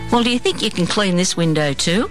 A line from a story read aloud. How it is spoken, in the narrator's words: I laughed out loud